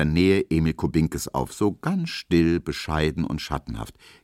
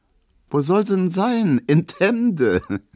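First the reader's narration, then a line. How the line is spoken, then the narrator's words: Said, laughing. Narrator (German): meint Emma und lacht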